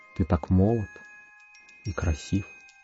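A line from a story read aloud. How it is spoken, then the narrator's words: Tender whisper in ear. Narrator (Russian): Хозяйка нежно зашептала мне на ухо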